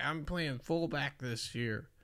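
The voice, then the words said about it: Put-on Southern accent. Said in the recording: “why you gotta give him a southern voice?”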